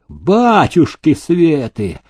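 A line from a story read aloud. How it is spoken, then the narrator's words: Howled. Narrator (Russian): взвыл Селезень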